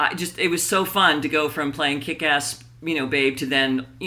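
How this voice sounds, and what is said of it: Usual voice. Nothing is said of it.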